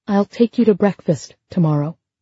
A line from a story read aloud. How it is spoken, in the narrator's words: she said